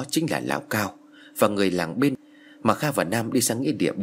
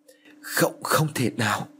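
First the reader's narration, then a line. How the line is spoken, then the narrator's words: Trembling. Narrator (Vietnamese): Hắn run rẩy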